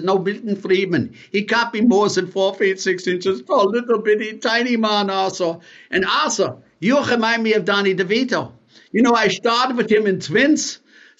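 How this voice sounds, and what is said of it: Spot-on Arnold Schwarzenegger impression. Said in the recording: “impersonation. That was a spot on Arnold.”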